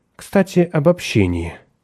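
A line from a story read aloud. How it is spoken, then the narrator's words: Tired. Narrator (Russian): произнесла Николь, устало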